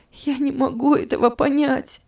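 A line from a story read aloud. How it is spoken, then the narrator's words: Sobbing. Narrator (Russian): всхлипывала она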